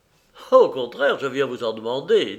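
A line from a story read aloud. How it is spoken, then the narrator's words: Cheerful. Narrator (French): dit Raoul gaiement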